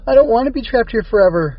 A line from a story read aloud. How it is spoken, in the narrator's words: wailed